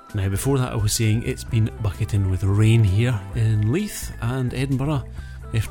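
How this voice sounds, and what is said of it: Regional accent. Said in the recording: “can't understand my accent”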